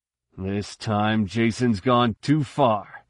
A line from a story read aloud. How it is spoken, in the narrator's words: Han growled